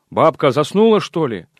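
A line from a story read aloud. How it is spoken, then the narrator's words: Shouting through a gap. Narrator (Russian): закричал в образовавшуюся щель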